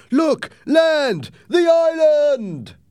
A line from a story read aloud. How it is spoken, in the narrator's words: The men were jumping up and down and shouting